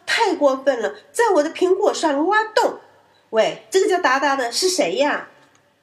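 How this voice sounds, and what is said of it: Loud, shouting character voice. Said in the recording (Chinese): “用很大的声音说道”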